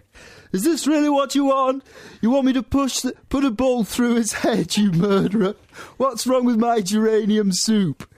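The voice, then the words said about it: Imitates another person's voice. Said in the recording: “That's not a very good Morrissey impression... That was like Ken Corder... He wasn't even from Manchester.”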